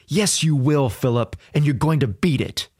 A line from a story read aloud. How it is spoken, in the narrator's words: My grandmother would fiercely agree